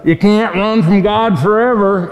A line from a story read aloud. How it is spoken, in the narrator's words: yelled out, he says